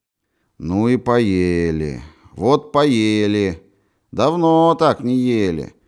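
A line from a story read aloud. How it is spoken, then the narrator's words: Lazy sleepy sing-song. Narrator (Russian): Ленивым певучим голосом проговорил Кострюков, у которого от усталости и сытости падали и смежались отяжелевшие веки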